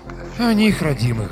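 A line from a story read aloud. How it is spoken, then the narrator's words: Sighing doctor. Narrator (Russian): вздохнул доктор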